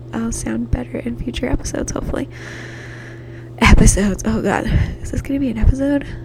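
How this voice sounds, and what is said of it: Nasal, congested voice. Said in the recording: “I sound super nasally, and I'm not usually this Fran Drescher ... I'm not usually this nasally. I got a sinus infection ... that's why I sound weird.”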